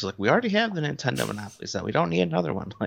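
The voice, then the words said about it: Imitates another person's voice. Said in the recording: “that impersonation of her”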